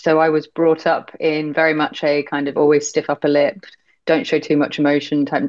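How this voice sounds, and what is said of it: British accent. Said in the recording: “as you can probably tell from my accent, I'm British”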